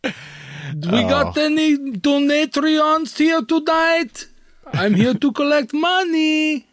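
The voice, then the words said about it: Put-on Russian accent. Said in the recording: “the Russian accent ... the Russian accent”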